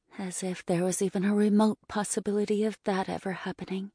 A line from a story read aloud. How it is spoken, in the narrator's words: I mumbled to myself